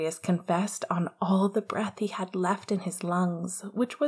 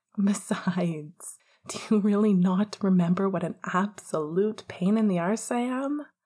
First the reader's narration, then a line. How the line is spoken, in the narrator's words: Sirius laughed, though it died in his throat